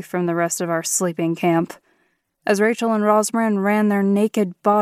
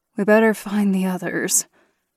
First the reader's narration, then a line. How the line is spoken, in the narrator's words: sighed